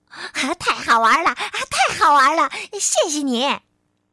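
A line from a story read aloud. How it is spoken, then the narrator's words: Loud. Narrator (Chinese): 哥斯大声地说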